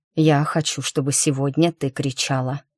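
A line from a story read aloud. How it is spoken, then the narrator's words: Hoarse speech. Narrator (Russian): хрипло сказал Макс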